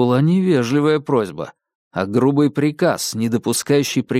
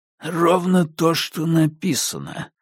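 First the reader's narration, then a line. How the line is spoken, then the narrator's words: Through gritted teeth. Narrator (Russian): процедил сквозь зубы инспектор Филд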